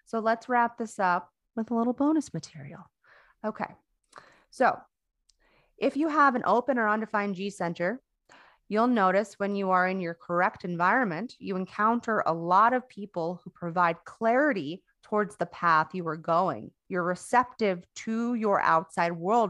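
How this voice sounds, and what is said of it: Hoarse, strained, fading voice. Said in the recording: “See, now I'm losing my voice.”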